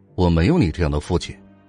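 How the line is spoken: Defiant angry shout. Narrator (Chinese): 齐军不甘示弱，大声吼道

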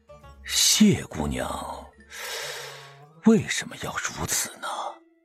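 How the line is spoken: Old man sighing. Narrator (Chinese): 吕老先生叹了口气

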